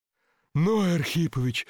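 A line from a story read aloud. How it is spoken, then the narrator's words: Crowd moaning in anticipation. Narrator (Russian): застонала толпа в предчувствии великих событий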